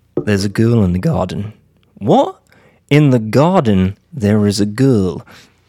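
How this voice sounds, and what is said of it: Attempted British accent. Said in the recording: “try my best to do a British accent”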